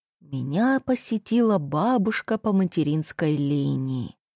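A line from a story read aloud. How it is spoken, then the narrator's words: Sepulchral voice. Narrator (Russian): загробным голосом сообщала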